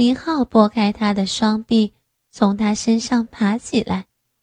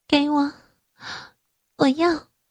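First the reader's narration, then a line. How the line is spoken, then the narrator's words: Hoarse, firm. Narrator (Chinese): 他的声音嘶哑而坚定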